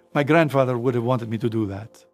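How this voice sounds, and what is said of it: Italian accent. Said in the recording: “in an Italian accent”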